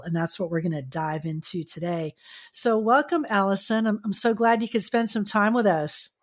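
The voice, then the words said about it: Polished radio-host voice. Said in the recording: “You have such a wonderful radio voice ... you've got it dialed in”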